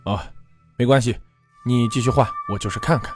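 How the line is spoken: Nervous, flustered. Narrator (Chinese): 肖慎吾……有些诚惶诚恐地说道

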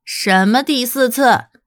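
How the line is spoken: Smiling, teasing. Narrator (Chinese): 他还是决心要调戏瑞德……对他微笑道

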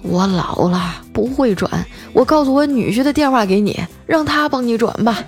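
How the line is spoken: Excited, trembling voice. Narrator (Chinese): 她贼激动啊，声音颤抖着说

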